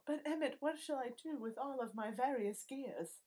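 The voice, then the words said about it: Bad put-on British accent. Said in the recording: “my bad British accent”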